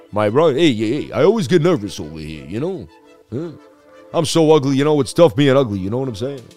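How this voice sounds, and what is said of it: Imitates another person's voice. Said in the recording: “my Ronnie Dangerfield impression”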